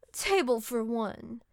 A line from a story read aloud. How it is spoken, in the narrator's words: said haughtily